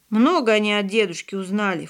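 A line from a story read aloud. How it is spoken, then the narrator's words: Brother's scornful snort. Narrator (Russian): фыркнул брат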